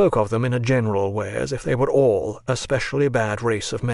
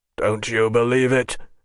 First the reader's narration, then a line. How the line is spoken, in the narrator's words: growled the general